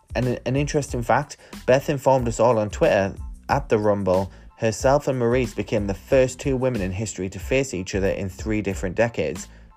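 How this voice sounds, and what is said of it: Northern English accent. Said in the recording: “my Northern English accent”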